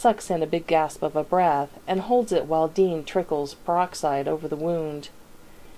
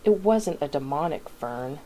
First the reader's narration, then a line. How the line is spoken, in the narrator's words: Dean mutters